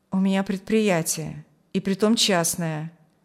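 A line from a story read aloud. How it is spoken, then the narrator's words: Gloomy. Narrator (Russian): мрачно сказал он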